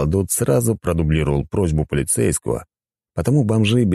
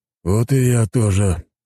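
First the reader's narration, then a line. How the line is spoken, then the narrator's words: Sigh. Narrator (Russian): вздохнул полицейский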